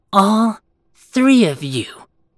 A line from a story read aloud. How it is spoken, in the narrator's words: Eva spat